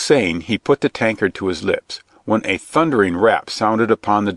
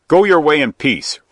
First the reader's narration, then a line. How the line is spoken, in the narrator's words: roared back the friar